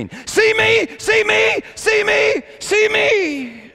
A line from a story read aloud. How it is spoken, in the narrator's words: she just started screaming